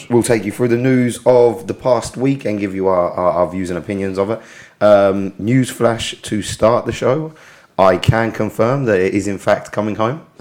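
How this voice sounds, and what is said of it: Hoarse, strained voice. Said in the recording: “My voice is a bit of a mess because I spent yesterday screaming out in chants”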